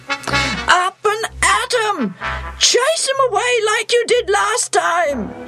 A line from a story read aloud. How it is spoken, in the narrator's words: yells